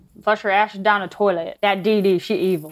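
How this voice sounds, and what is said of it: Very bad put-on accent. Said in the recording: “In my very bad accent.”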